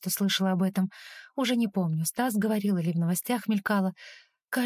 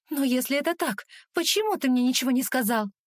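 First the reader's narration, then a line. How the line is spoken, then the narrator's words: Indignant. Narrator (Russian): Возмущенно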